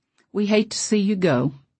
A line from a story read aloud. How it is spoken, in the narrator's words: Mother just sighed and said